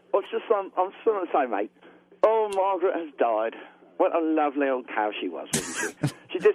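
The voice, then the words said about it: Fake British accent. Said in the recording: “I can't do a fake big British accent ... Actually, that wasn't bad.”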